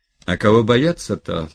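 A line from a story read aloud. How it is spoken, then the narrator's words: Good-natured respectful tone. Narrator (Russian): продолжал он тем же добродушно уважительным тоном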